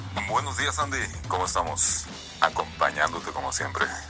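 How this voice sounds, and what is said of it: Announcer-style radio voice. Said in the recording (Spanish): “haciendo voz de locutor”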